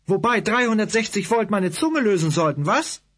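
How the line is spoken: Angry retort. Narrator (German): gab ich wütend zurück

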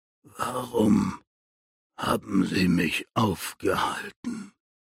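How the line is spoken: Barely a whisper. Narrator (German): Es war kaum mehr als ein Flüstern

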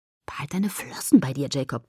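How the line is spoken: Hiss. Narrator (German): zischte ich

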